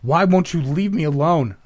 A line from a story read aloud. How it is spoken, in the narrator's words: shouted